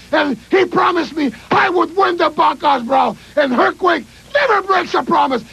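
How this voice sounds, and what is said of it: Accent with misplaced H sounds. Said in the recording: “how about Dino Bravo with his H relocation program?”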